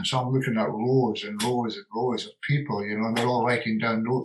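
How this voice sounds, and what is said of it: Scottish accent. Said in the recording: “Can you imagine, with a Scottish accent?”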